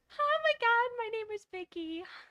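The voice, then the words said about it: Imitating a woman's voice. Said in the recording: “talk like a woman”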